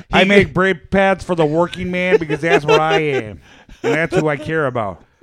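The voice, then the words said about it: Imitates another person's voice, poorly. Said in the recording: “a really terrible Dan Aykroyd impression ... Not bad.”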